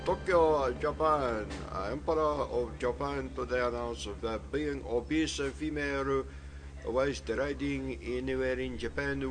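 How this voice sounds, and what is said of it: Put-on Japanese accent, poorly done. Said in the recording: “Japanese accent ... Very, very bad”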